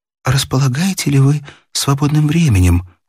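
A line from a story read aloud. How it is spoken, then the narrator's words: Timid question. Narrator (Russian): спросила дама робко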